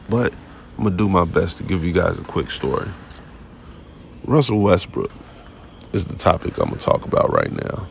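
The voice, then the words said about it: Weak, sick-sounding voice. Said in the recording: “I was under the weather, as you could tell. My voice has still not came back.”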